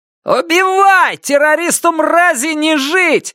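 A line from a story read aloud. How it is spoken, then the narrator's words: Yelling crowd. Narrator (Russian): заорали в ответ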